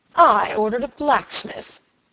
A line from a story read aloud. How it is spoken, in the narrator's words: exclaimed Robert